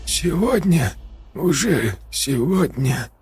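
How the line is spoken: Hoarse, broken voice. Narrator (Russian): Его голос был хриплым и прерывистым

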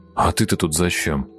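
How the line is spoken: Grumbled. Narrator (Russian): буркнул Прохор Николаю

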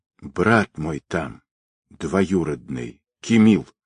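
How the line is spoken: Quiet reply. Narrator (Russian): тихо ответила Ольга

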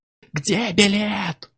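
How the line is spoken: Yell. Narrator (Russian): заорал Чак

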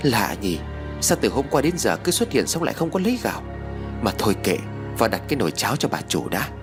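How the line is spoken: Muttering. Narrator (Vietnamese): miệng lẩm bẩm nói

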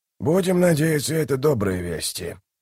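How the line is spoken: Grumbled. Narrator (Russian): пробурчал Дуджик

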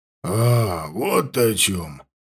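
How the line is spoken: Drawled. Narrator (Russian): протянул полузверь

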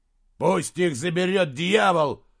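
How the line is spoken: Growl. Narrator (Russian): прорычал Слудик

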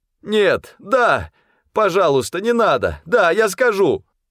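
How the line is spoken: Pained cry. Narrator (Russian): Тот скорчился от боли и крикнул

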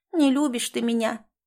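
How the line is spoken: Sad. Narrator (Russian): печально сказала мышка

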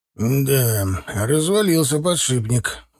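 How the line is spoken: Sighing. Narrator (Russian): вздохнул Завгар Федотыч

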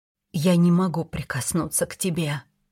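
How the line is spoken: Whisper. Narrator (Russian): прошептала

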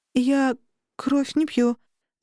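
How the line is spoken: Forced out reluctantly. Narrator (Russian): выдавила

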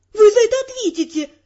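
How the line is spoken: Continued screaming. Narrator (Russian): продолжала вопить

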